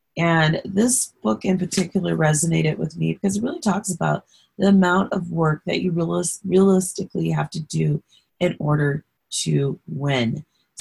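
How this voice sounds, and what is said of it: Hoarse voice. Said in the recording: “Sorry about the hoarse voice. It's been a long weekend. ... once my voice is no longer hoarse.”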